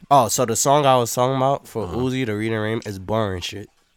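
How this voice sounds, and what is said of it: Wheezy, congested voice. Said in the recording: “That's why you're about to have a fucking asthma attack ... Bro, I sound like a fucking dog from Wacky Races ... Just call you Wheezy ... Allergies is kicking my ass.”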